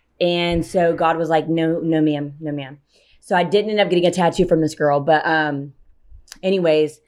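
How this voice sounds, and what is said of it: Out of breath speaking. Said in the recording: “I'm out of breath because I'm so fucking pregnant.”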